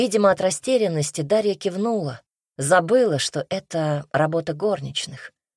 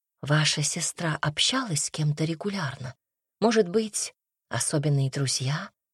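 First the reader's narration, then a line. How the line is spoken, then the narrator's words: Quiet question. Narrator (Russian): Тихо спросила Настя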